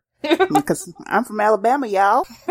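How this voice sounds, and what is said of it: Put-on Southern US accent. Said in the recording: “like his weird like southern accent or whatever”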